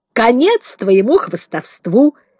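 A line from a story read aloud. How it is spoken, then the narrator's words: Cheerful boy declaring. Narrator (Russian): весело заявил мальчишка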